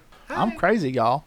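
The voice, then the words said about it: Put-on southern accent. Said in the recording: “Shooting people with a southern accent.”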